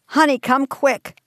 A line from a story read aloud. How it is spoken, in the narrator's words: Ken shouted to his wife, Megan